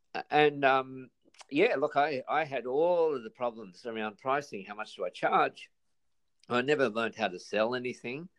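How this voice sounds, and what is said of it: Australian accent. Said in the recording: “I'm a business coach in Sydney, Australia. You can probably tell from the accent.”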